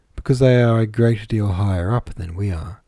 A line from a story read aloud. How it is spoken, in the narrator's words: replied I